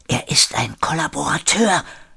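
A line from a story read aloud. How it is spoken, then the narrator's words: Whisper. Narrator (German): flüsterte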